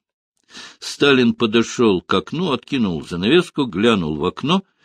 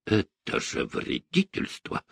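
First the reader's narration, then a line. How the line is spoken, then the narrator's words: Menacing. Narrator (Russian): грозно произнес Сталин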